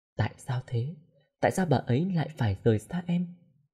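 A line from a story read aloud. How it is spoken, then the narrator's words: Very soft voice. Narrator (Vietnamese): nói bằng một giọng hết sức mềm mại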